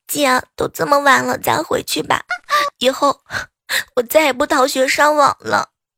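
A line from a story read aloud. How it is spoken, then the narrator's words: Tearful voice. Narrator (Chinese): 堂弟带着哭腔对我说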